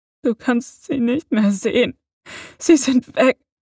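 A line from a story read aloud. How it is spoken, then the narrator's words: Sobbing. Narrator (German): schluchzte er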